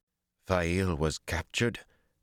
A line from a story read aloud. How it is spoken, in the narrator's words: Perrin said thickly